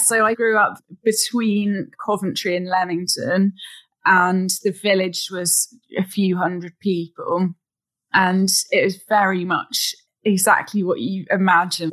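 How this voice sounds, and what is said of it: English Midlands accent. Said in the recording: “I actually grew up in a very small village in the Midlands ... I can tell by your accent”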